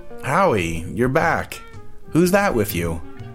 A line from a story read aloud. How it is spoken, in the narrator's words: She like I'd just been out later than usual one night, exclaimed